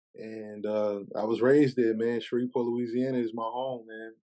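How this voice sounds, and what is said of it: New York accent. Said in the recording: “my whole family's from New York, so living in a house with people who have New York accents, it's kind of hard not to inherit that ... my accent always was with me”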